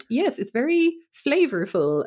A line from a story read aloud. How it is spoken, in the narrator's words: she's like, um